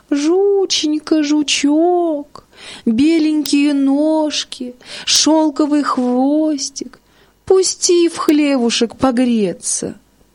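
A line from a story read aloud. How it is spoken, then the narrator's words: Thin, feigned-sick pleading. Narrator (Russian): лиса, прикинулась больной, и ну жучку умаливать, тоненьким голоском упрашивать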